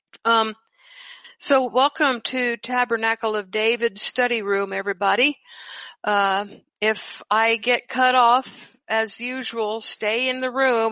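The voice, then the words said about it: Hoarse voice. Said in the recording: “Excuse me, I'm gotten hoarse.”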